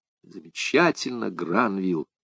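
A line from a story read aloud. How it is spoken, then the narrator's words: Whisper. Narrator (Russian): прошептал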